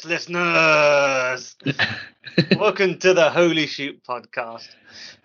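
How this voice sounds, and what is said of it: Announcer-style radio voice. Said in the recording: “in a radio voice,”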